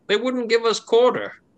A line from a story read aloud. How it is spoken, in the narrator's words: yells back and they say